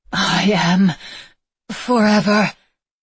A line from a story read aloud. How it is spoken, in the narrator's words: the woman gasped out